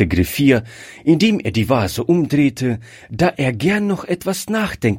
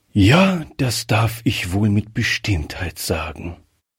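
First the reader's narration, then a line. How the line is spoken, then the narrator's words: Deep sigh. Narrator (German): erwiderte der Oberst mit einem tiefen Seufzer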